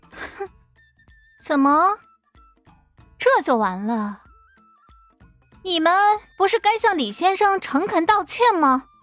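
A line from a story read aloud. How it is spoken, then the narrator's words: Cold sneer. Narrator (Chinese): 艾云珍冷笑一声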